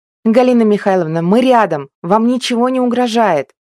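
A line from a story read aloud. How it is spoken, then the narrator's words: Shouted. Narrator (Russian): крикнула она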